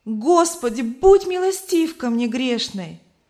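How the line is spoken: Loud exclamation in sleep. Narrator (Russian): Она громко воскликнула во сне

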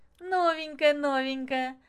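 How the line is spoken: Laughing. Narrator (Russian): смеясь, Маша

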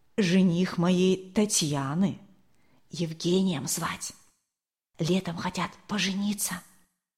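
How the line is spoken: Whisper in ear. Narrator (Russian): Зинаида Кирилловна шепнула на ухо Марии Николаевне

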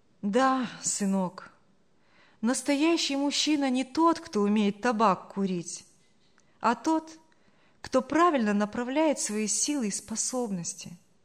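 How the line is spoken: Sad. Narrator (Russian): грустно проговорила Саша

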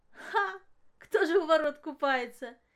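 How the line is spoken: Giggling. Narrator (Russian): хихикнула Маша

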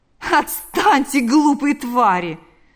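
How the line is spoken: Laughing. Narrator (Russian): сказал, рассмеявшись, Лукьян

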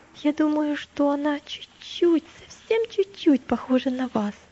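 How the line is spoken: Timid. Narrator (Russian): сказал христианин робко

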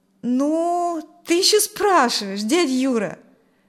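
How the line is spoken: Reproachful drawl. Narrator (Russian): с укором протянул Коля

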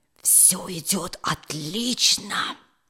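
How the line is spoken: Whispered. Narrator (Russian): прошептал он

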